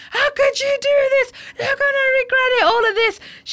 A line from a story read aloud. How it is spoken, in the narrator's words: screaming and shouting